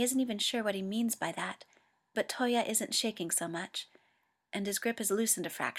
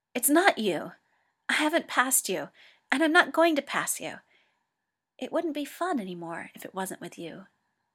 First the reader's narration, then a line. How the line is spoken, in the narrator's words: Hikaru blurts out